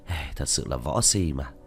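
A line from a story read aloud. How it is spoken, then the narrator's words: Exasperated sigh. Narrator (Vietnamese): Diệp Thiếu Dương cạn lời thở dài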